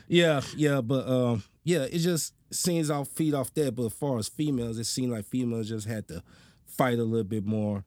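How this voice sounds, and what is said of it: Country accent. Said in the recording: “Excuse my country ass accent.”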